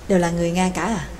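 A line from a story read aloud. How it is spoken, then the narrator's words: Quiet question. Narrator (Vietnamese): Nhạc Dương khẽ hỏi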